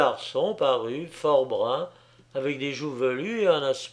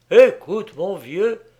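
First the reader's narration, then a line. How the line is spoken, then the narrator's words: Sudden exclamation. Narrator (French): Puis soudain, il s'écriait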